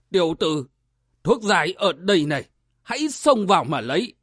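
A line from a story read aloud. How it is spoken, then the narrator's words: Loud laughing speech. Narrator (Vietnamese): Lão nhân tóc bạc cười to, nói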